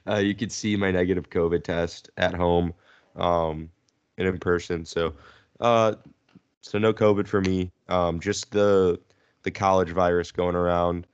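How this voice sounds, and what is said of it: Sick, congested-sounding voice. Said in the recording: “my voice is a little different. I'm currently sick”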